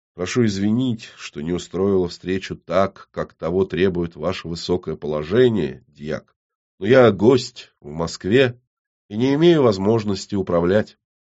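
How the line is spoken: Quietly spoken. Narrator (Russian): Татум негромко произнесла

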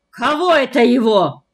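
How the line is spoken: Father barking. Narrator (Russian): рявкнул отец

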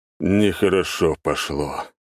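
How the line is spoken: Sighing. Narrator (Russian): вздохнул Август Никифорович

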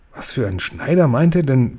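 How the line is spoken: Whisper. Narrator (German): wisperte Sophiechen

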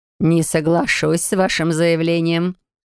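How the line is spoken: Skeptical snort. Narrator (Russian): хмыкнула преподаватель

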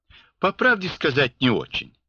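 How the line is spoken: Guffawing. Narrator (Russian): захохотал

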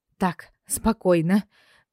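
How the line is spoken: Breathy exhale. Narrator (Russian): выдохнула

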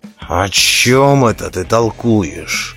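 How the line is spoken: Angry question. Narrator (Russian): злобно спросил Роди

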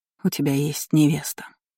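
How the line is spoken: Barely audible, smiling. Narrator (Russian): едва слышно произнесла она, как ни странно, с улыбкой

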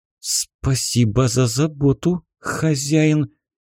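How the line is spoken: Strained, embarrassed. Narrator (Russian): с трудом выдавила из себя слова Су, чувствуя, что еще больше покрывается румянцем

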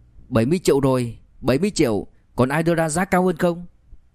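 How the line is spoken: Loud. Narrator (Vietnamese): lớn tiếng

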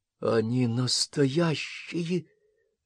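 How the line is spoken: Breathless. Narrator (Russian): выдохнула Карен

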